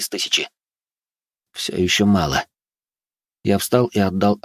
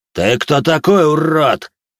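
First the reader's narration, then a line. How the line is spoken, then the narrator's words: Roar. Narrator (Russian): проревел он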